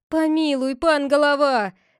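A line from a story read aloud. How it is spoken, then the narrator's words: Crowd shouting. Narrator (Russian): закричали некоторые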